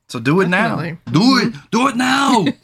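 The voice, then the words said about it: Imitates another person's voice, badly. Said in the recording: “my Schwarzenegger impression. It's pretty bad.”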